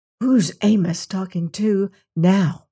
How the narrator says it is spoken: he whispered to Bill

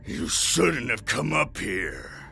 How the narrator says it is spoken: he grunted

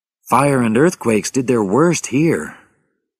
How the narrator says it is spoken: Rachel said sadly

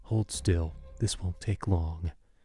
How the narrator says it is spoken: The one who held me whispered in my ear

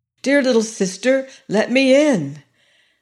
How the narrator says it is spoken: cried

